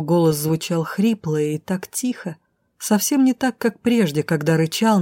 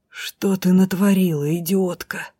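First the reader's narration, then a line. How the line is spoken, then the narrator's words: Groaning man. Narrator (Russian): простонал мужчина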